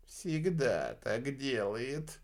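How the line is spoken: Sigh. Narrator (Russian): Вздохнул Энди

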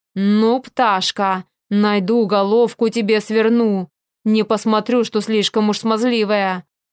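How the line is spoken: Hissed through teeth. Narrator (Russian): прошипел он сквозь зубы

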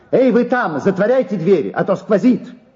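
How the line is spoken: Angry defiant shouting. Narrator (Russian): он, желая показать им, что ему вовсе не стыдно, кричал сердито

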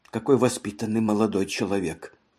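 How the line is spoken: Whisper. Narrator (Russian): она прошептала

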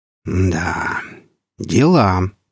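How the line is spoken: Sighing. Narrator (Russian): вздохнул Андрей

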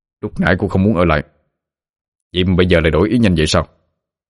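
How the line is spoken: Cold. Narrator (Vietnamese): Trường Hà lạnh lùng đáp

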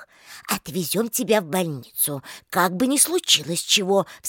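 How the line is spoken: Anxious mutter. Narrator (Russian): встревоженно пробормотала Клавдия

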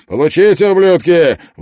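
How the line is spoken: Shouted out. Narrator (Russian): выкрикнул Клин

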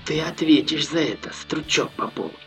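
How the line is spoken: Distinct whisper, spitting blood. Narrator (Russian): отчетливо прошептал парень, выплевывая кровь в перемешку с пылью

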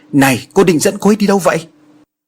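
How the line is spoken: Shouted question. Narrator (Vietnamese): Anh liền hét lớn hỏi cô gái

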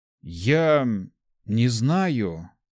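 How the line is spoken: Slow speech. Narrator (Russian): медленно проговорил Март

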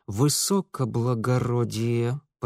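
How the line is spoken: Through gritted teeth. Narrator (Russian): процедил Митя

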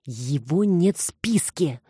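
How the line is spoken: Hissing. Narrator (Russian): зашипела Саша вслед

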